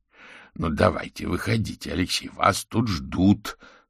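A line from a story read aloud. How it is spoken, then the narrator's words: Plain. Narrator (Russian): сказал Дворецкий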